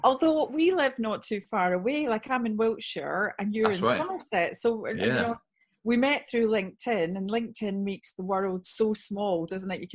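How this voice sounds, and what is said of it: Scottish accent. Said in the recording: “as you can hear by the accent, I'm Scottish.”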